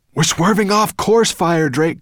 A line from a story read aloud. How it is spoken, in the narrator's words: cried Ben